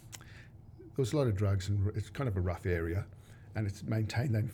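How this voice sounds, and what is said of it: Australian accent. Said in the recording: “As you probably can tell by the accent, I was born in Australia, in Sydney”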